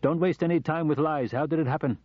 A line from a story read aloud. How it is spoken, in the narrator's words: said firmly